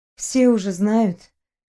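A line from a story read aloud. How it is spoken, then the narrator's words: Sighing. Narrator (Russian): вздохнула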